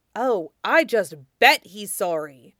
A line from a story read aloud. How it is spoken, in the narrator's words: Saluen grumbled